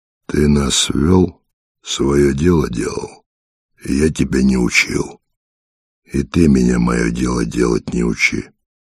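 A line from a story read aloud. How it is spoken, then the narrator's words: Dry, curt. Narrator (Russian): Ухват сухо произнес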